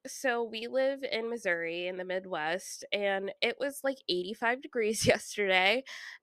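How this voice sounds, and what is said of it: Stuffy, congested voice. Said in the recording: “if I sound stuffy, it's because my sinuses are freaking out”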